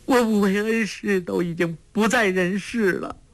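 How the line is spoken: Crying. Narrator (Chinese): 郭靖哭道

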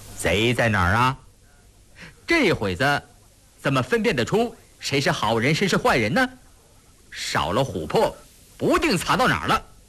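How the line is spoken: Sly grinning. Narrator (Chinese): 印祥一脸坏笑说

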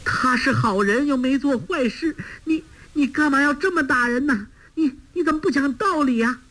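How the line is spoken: Crying out. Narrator (Chinese): 包惜若见丈夫如此受苦，哭叫着

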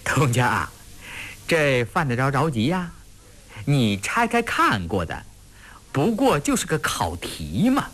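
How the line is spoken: Laughing. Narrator (Chinese): 高启卓在一旁笑着说

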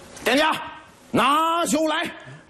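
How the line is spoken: Loud call. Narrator (Chinese): 武松高声叫道

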